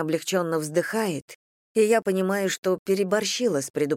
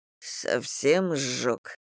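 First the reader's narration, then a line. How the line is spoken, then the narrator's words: Hoarse question. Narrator (Russian): хрипло спросил Женя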